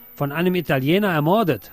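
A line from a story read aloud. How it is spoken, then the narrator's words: Calling out. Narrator (German): rief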